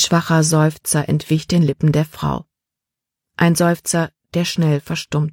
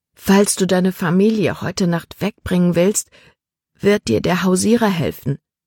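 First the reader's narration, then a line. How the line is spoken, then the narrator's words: Plain. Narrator (German): sagte Libby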